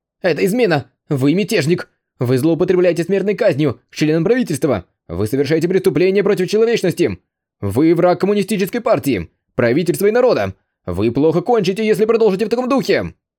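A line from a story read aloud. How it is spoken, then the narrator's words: Angry shouting. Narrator (Russian): Сердито кричал вице-мэр Лиюань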